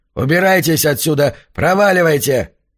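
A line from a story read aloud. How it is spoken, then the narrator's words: Hoarse shout from inside. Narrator (Russian): хриплый голос изнутри выкрикнул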